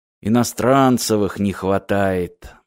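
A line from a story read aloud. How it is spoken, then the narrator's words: Gloomy muttering. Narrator (Russian): мрачно сказал Мартин самому себе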